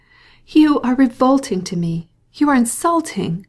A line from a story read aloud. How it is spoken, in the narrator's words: she cried, with increasing anger